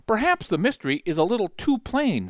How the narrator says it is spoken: said Dupin

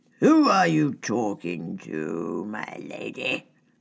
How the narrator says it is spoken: Sir Guy's drawl

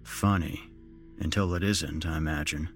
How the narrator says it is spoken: I said dryly

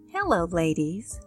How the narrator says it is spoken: brightly said

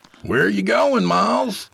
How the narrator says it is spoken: Jacob shouted after him

